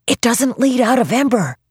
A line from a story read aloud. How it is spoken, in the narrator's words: he whispered